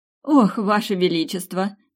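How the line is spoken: Laughing. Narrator (Russian): рассмеялась я

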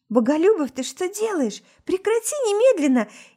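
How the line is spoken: Frightened mutter. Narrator (Russian): Испуганно бормочет

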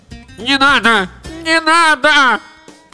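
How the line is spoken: Shrill scream. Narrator (Russian): пронзительно закричала лодка

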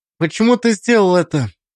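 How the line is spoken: Sighing. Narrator (Russian): вздохнул

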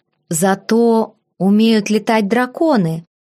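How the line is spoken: Plain. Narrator (Russian): ответила я

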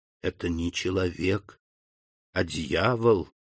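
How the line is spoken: Whisper. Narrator (Russian): прошептал он

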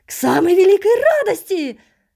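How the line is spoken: Shrieking chorus of voices. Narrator (Russian): Срываясь на визг, закричала в ответ сразу несколько голосов

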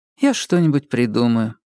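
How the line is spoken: Calm. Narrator (Russian): спокойно сказала Кира

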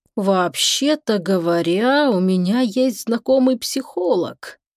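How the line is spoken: Thoughtful drawl. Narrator (Russian): раздумчиво протянул Шепруф

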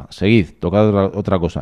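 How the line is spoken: Hoarse young man. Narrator (Spanish): Un hombre joven dice con voz ronca

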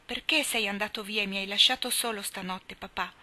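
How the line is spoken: Child's reproachful tone. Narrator (Italian): Rob, che gli correva incontro, dicendogli in tono di rimprovero

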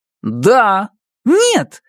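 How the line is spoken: Exclaimed. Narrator (Russian): воскликнула Эдди

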